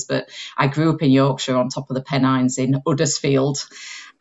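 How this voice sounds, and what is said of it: Slight Yorkshire accent. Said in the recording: “I've got a twang of a Yorkshire accent in here”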